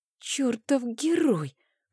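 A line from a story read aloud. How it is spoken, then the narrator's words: Respectful whisper. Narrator (Russian): прошептала с уважением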